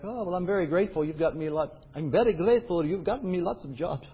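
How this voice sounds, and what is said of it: Put-on Greek accent. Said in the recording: “However a Greek accent goes.”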